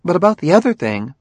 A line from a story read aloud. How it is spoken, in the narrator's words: she went on earnestly